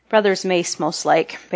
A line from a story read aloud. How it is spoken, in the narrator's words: Baylor said thickly